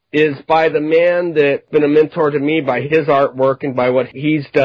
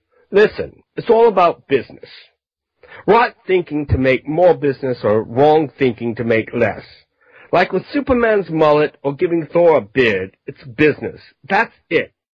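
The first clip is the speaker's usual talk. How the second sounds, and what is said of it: Put-on British accent. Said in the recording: “I'm going to do it in a British accent because David's British.”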